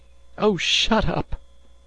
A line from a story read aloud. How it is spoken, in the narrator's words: she cried suddenly